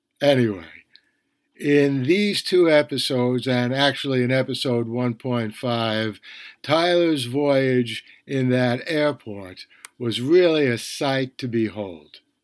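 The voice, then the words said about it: Bronx accent. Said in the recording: “I don't speak with a Shakespearean accent, I speak with a Bronx accent.”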